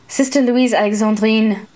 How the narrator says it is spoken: Schwinnard grumbled

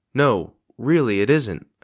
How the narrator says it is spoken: I said

